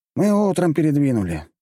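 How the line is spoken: Sighing. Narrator (Russian): вздохнул Джованни

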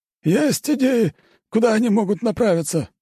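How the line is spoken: Hoarse voice. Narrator (Russian): хрипло говорит Флавий

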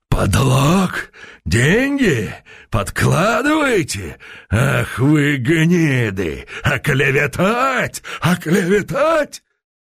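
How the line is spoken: Speaking through clenched teeth. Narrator (Russian): Константин, проговорил сквозь зубы

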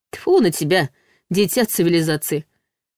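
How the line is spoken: Good-natured snort. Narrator (Russian): Беззлобно фыркнул Ваня

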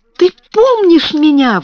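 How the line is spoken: Exclaiming. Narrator (Russian): воскликнула она

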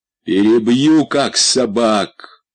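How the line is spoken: Terrifying menacing voice. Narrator (Russian): сказал Румата страшным голосом

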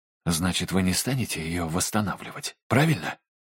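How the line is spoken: Hushed question. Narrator (Russian): тихо спросил Дайн, чтобы его не было слышно за занавеской

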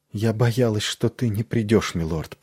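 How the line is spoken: Whispering. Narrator (Russian): прошептала она

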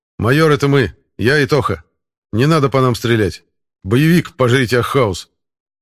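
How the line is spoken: Loud. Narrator (Russian): Громко сказал Алексей

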